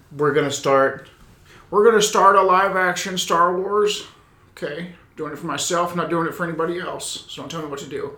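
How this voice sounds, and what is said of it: Imitates another person's voice. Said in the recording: “That's my George Lucas impression.”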